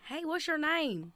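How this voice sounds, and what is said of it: Heavy country accent. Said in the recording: “everyone out there has like this heavy country accent”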